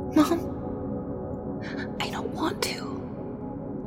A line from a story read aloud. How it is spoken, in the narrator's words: she whispered